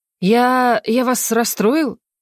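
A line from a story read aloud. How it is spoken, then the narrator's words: Confused question. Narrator (Russian): Растерянно спросил Кайрен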